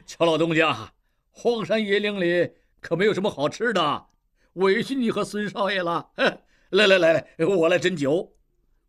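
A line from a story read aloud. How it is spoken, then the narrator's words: Old man, laughing. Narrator (Chinese): 摆渡老人 笑道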